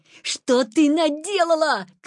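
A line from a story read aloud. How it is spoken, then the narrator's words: Shouting. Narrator (Russian): крикнул Петя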